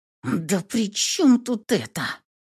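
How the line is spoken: Hissed under breath. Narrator (Russian): прошипела себе под нос

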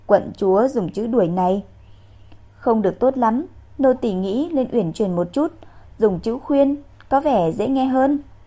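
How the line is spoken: Soft laugh. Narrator (Vietnamese): khẽ cười

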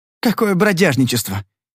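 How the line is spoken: Hesitant snap. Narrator (Russian): неуверенно огрызнулся он

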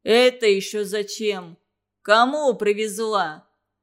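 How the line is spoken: Angry question. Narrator (Russian): зло спросил Харитон

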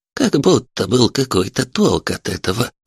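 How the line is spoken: Creaky old woman's voice. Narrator (Russian): проскрипела пожилая женщина

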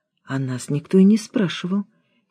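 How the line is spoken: Quiet explanation. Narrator (Russian): тихо пояснила Алена

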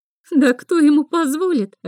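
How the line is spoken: Aunt laughing. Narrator (Russian): рассмеялась тетя

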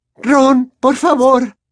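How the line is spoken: Trembling voice. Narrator (Spanish): dijo Hermione con voz temblorosa

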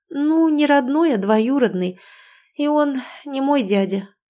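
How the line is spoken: Weary sigh. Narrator (Russian): в который раз вздохнула я

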